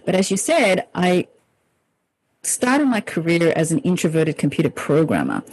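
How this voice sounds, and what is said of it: Australian-accented English. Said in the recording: “you may have noticed I have an accent, and that's because I grew up in Australia”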